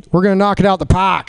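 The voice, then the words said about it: Put-on New England accent. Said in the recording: “A little New England accent”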